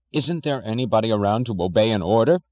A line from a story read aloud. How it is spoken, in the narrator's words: cried Mr